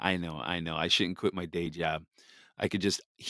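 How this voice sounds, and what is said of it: Usual voice. Nothing is said of it.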